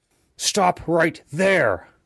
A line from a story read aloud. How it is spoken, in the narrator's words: barked from across the road